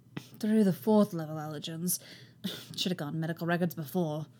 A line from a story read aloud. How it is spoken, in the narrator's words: mutters